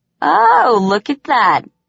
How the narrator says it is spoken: He laughed, noticing how much he'd caught me off guard

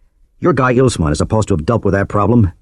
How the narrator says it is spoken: said angrily

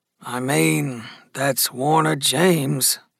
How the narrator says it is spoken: Gus murmured

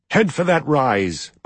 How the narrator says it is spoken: Maiev shouted

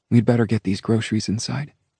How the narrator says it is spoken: said

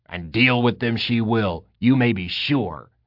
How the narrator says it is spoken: Tagwin grunted, looking almost happy

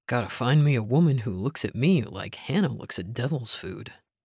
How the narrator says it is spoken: Isaiah muttered

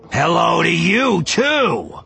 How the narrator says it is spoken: He said, speaking loudly

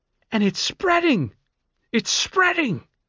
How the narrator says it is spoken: she shrieked

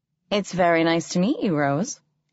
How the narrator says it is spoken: said Ambrose

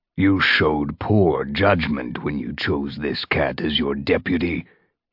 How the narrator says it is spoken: he growled

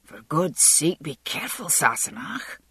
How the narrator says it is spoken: he muttered

